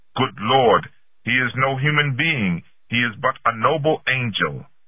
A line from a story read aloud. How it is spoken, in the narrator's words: they were so amazed that they cut their hands and exclaimed spontaneously